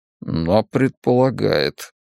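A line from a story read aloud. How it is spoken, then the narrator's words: Muttering. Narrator (Russian): пробормотал Бен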